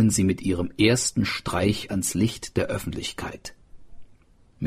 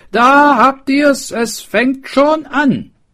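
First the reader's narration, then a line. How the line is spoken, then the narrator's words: Angry shout. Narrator (German): Als ihn die anderen auslachten, rief er ärgerlich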